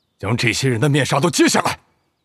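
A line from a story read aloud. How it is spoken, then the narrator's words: Angry. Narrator (Chinese): 谷仓 怒道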